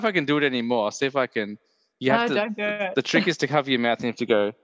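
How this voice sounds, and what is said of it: Usual voice. Nothing is said of it.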